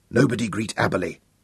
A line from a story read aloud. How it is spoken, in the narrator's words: he whispered urgently